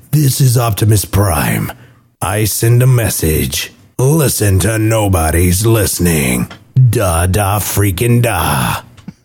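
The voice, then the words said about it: Deep Optimus Prime voice. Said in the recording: “You had a cold, so you recorded that. ... with my deep voice. ... I still don't sound that good.”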